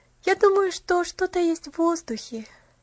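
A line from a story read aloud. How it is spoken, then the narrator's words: Happy sigh. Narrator (Russian): счастливо вздохнула Пуляна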